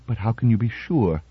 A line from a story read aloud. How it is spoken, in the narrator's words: Bogert, afraid to believe, whispered